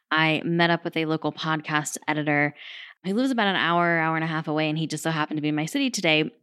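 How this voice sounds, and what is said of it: Hoarse voice. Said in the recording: “my voice is a little bit hoarse”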